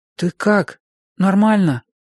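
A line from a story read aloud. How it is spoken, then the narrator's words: Timid question. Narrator (Russian): робко спросил я ее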